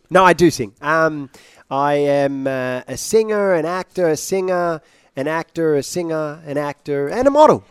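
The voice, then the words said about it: British accent. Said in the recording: “you sound British.”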